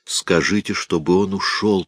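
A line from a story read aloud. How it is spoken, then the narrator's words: Whispering. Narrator (Russian): прошептал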